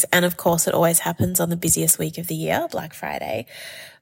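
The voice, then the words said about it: Congested, sick-sounding voice. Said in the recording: “You're probably going to hear it in my voice, but I'm sick at the moment. I'm quite congested, sore throat, blocked ears ... bear with me through the congestion”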